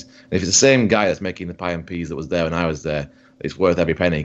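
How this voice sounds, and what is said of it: Heavy Yorkshire accent. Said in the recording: “the more you talk about this, the heavier your Yorkshire accent gets.”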